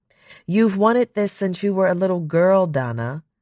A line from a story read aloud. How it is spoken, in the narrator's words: Song said